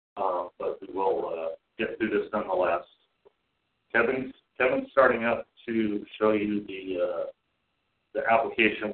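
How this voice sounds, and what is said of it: Sick voice cutting in and out. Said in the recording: “I'm a little bit under the weather ... my voice is a little going in and out”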